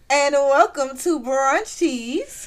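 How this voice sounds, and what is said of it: Exaggerated announcer voice. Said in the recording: “announcer voice”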